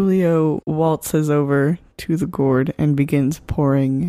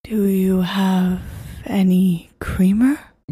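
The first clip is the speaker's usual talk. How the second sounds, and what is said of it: Amusing put-on accent. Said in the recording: “Your accent is very amusing to me.”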